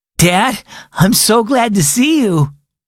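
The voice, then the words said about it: Wobbly, shaky voice. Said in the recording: “said in a wobbly voice.”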